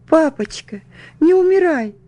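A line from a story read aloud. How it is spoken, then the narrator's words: Sobbing. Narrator (Russian): всхлипывала я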